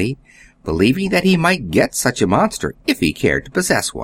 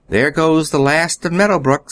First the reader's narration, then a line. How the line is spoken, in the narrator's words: sighed Nan